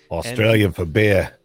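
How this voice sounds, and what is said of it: Poor imitation Australian accent. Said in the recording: “No offense to any Australians listening. I know my accent impersonation is horrible.”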